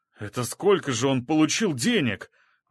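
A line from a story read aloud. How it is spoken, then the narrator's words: Excited musing exclamation. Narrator (Russian): возбужденно воскликнул, спрашивая то ли нас, то ли самого себя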